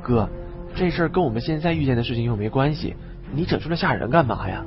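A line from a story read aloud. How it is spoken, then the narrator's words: Muttering. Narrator (Chinese): 王刚嘀咕说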